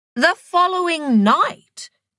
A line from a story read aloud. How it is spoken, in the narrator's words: screeched Indira